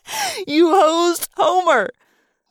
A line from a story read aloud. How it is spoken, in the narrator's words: Marco giggled